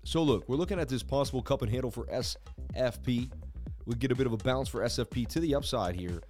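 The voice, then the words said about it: Hoarse, strained voice. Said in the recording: “Losing my voice too today.”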